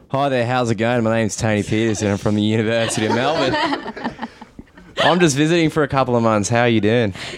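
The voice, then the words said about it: Put-on Australian accent. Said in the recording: “I found the Australian one to be the best ... talk in a different accent ... I'm totally kidding. I'm not Australian.”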